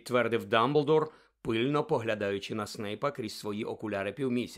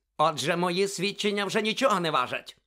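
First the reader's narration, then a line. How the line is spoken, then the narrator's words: Barked. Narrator (Ukrainian): гаркнув Снейп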